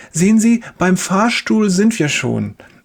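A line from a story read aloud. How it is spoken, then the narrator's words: Cheerful. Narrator (German): sagt die Schwester fröhlich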